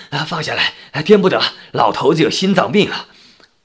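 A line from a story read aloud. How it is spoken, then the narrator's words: Breathless, panting. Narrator (Chinese): 阿花婶婶气喘吁吁地说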